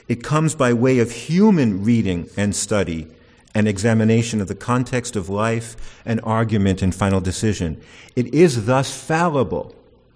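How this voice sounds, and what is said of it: Raised, loud voice. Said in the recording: “raising my voice”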